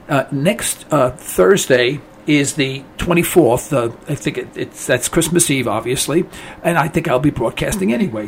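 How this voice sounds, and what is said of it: Hoarse, worn-out voice. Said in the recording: “my voice is a little shot today”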